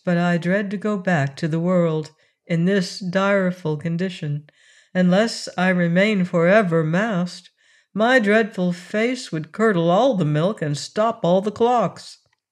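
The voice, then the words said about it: Sad, mournful voice. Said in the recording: “in a sad voice”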